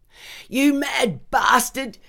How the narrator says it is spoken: Dottie yelled

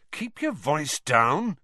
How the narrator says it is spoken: said Harry crossly

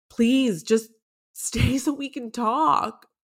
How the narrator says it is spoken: I pleaded

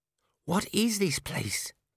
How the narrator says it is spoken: Cheery whispered

